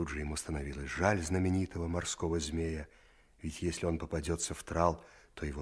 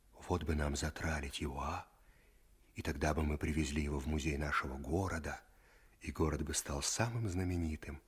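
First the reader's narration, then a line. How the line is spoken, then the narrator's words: Whisper. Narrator (Russian): Саша шептал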